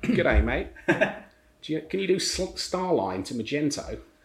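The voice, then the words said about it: Put-on Australian accent. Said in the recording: “Can you do an Australian accent?”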